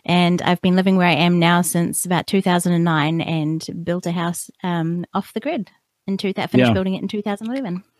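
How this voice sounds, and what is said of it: New Zealand accent. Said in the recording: “your accent gives it away ... I'm a New Zealander, born and bred here”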